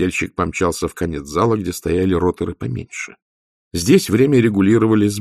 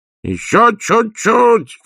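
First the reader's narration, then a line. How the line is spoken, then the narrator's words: Shouting. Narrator (Russian): крикнул Людзе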